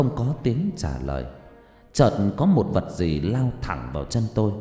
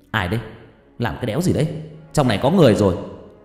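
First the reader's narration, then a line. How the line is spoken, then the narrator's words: Startled shout. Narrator (Vietnamese): Tôi giật mình quát lên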